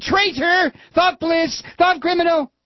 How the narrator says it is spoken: they were both shouting

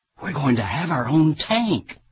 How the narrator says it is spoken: the mayor of Keene, New Hampshire, leaned over to a council member and whispered excitedly

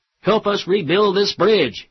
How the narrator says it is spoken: he shouted out to Boehner and McConnell

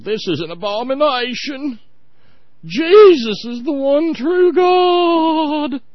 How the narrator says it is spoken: they had hollered

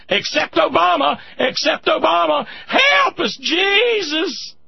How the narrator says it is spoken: Teresa Cow sitting in the gallery of the House of Representatives this morning, waiting for her opportunity to scream

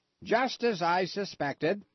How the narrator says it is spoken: the rose cried

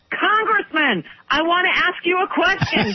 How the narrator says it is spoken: I'm shouting out the window

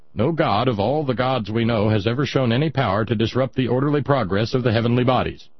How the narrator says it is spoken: saying flatly

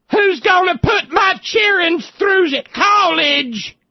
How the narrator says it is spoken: some coal wife hollered, some company wife hollered

